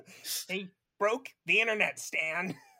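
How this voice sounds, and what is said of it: Cartoon South Park kid voice. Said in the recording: “That was a good South Park kid impression ... one of the amorphous voices”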